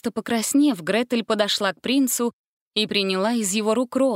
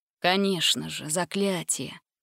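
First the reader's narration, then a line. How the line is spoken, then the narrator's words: Muttered. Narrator (Russian): пробормотал принц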